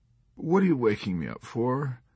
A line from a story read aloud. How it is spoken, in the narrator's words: whimpered Colonel Korn